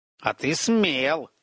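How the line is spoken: Smirking grunt. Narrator (Russian): хмыкнул Верзила

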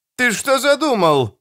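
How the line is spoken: Shouted. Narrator (Russian): закричал Дож

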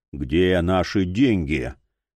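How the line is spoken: Champion's muffled question. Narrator (Russian): глухо спросил чемпион

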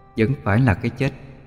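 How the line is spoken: Cold sigh. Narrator (Vietnamese): Cô lạnh lùng ... thở dài

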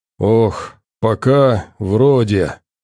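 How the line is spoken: Muffled. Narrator (Russian): донеслось глухо

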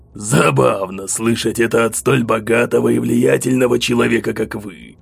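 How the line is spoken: Hoarse smirk, over phone. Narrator (Russian): Хрипло усмехнулся бандит по ту сторону телефона

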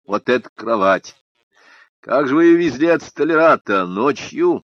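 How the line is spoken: Light, easy laughter. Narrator (Russian): Она захохотала легко, спокойно

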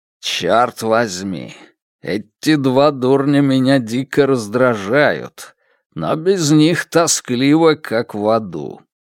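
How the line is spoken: Grumbled. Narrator (Russian): пробурчал он

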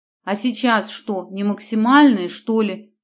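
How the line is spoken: Deep booming bass. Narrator (Russian): басил в ответ Конюков

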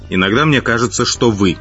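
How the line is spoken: Snapping retort. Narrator (Russian): огрызнулся темный

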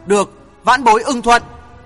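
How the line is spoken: Angry reply. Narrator (Vietnamese): giận dữ đáp

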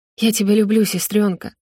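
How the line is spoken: Tearful whisper. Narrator (Russian): шепчу сквозь слезы

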